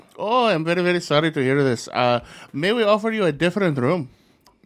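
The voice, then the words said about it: Put-on Indian accent. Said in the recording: “you have an Indian accent”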